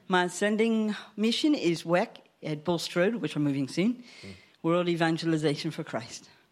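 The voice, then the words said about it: Slight American twang. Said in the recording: “I have a bit of a twang because I am an American born”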